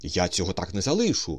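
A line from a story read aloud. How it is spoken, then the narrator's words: Muttering. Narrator (Ukrainian): бурмотів Остап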